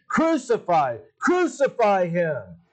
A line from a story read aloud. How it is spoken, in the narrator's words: they kept shouting